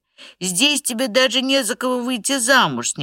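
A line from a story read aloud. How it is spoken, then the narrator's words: Mother's desperate exclamation. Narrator (Russian): с непонятным отчаянием воскликнула мать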